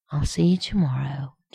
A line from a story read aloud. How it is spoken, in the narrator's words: John murmured against his mouth